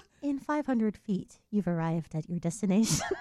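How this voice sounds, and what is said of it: Siri voice-assistant impression. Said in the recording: “I can also do the Siri voice”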